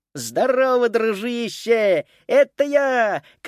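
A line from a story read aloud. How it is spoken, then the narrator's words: Shout. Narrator (Russian): крикнул Макс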